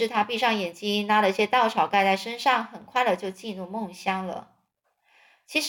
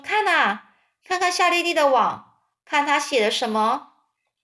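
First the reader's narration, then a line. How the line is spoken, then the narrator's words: Calling out. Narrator (Chinese): 芬儿就叫着说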